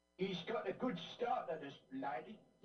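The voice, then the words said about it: Exaggerated ugly Cockney accent. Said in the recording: “that's horrible. That's his Cockney accent? ... he sounds ugly ... it's so cockney”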